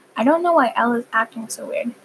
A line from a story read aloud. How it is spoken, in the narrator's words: said my mom